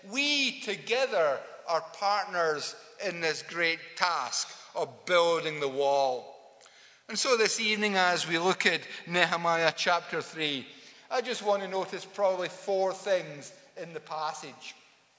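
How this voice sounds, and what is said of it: A noticeably unusual accent. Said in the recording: “a very, very funny accent”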